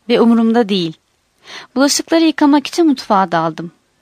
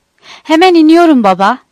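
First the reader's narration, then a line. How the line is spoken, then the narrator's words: Crying out. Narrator (Turkish): diye haykırdı Jack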